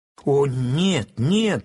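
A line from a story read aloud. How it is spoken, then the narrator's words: Squeaking chorus, mice. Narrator (Russian): хором запищали мыши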